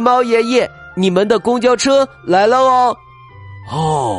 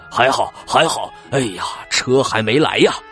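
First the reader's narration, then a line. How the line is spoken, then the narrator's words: Panting. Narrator (Chinese): 他呼呼的喘着气儿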